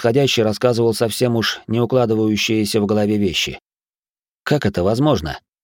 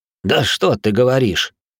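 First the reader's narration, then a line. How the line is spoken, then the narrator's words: Dry laugh. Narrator (Russian): сухо рассмеялся Минус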